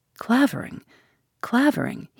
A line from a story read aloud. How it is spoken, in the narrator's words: he murmured, with quaking lips